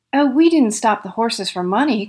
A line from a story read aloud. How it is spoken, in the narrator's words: cried Bert